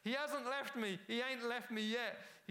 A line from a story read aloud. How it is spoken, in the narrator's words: shouted